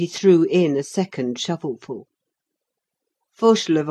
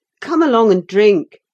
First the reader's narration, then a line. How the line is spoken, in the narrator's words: he cried